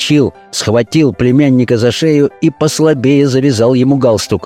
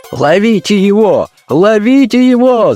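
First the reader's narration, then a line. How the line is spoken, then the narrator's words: Frantic shout. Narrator (Russian): закричал бургомистр совершенно вне себя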